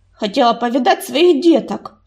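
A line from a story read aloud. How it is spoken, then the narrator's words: Snapping retort. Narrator (Russian): огрызнулась Саша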